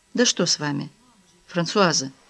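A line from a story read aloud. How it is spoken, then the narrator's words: Gentle question. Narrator (Russian): мягко спросил Козлов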